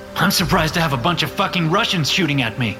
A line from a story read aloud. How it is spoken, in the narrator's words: I shout